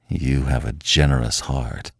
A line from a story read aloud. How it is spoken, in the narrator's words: he growled